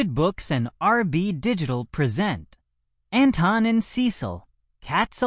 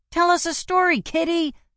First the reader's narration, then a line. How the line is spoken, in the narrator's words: shouted Mo, the smaller of the kittens